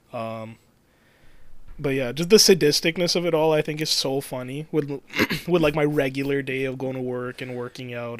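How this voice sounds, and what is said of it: Strained, worn-out throat. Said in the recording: “my throat is so shot. I wish I could do it better right now”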